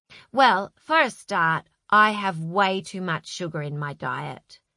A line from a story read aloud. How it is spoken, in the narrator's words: said Zoe